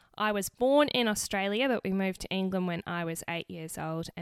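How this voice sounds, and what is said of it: Slightly unusual mixed accent. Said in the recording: “a little bit of a funny accent”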